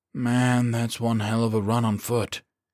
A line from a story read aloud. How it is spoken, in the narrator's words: he said dryly